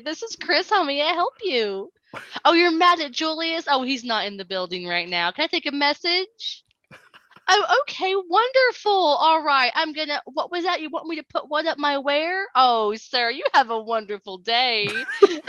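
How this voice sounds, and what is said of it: Put-on polite customer service voice. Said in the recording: “My customer service voice. ... please don't use that voice.”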